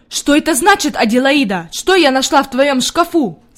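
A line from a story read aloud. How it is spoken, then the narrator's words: Shouting. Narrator (Russian): закричала она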